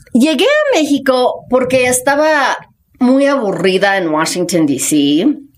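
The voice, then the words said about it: Speaks Spanish with foreign accent. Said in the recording (Spanish): “hablo con acento”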